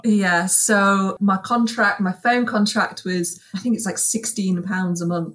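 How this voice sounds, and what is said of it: Yorkshire accent. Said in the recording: “you can't take Yorkshire out of the girl ... For anyone wondering where that accent is ... she is a Yorkshire girl at heart.”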